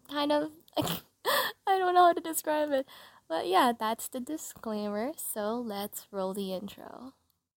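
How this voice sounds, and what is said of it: Raspy, rough voice. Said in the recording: “my voice is kind of not normal, kind of crappy, a little raspy,”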